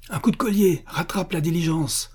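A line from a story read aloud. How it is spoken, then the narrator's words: Excited shout. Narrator (French): cria le prince, électrisé par cette sorte de steeplechase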